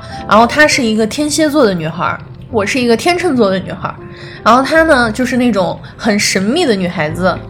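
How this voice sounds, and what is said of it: Northeastern Chinese accent. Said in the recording (Chinese): “为什么大家经常听我说话会有一口东北口音呢？就是被她带跑偏儿了。”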